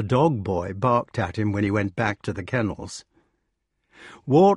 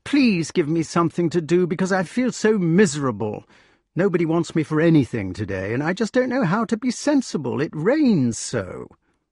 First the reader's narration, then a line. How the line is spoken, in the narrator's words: exclaimed the wart